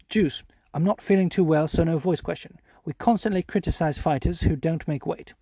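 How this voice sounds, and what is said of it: Put-on British Received Pronunciation accent. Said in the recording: “I always read Harry Andrew's questions in RP ... RP stands for Received Pronunciation”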